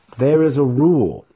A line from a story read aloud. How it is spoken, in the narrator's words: Kelnoz snapped back at him